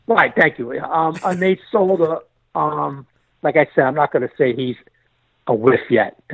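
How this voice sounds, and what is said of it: New York accent. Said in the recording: “the guy with the New York accent”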